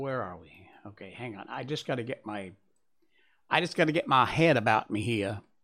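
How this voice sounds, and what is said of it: Put-on Southern US accent. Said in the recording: “doing a southern accent”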